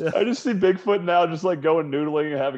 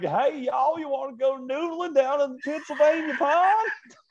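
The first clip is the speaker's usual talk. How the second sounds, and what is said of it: Put-on Southern US accent. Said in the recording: “having a southern accent”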